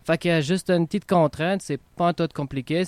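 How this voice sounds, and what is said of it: Quebecois French accent. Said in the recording (French): “super accent québécois, j'admire”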